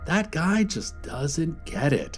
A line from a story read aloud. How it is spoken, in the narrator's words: he said, shaking his head sadly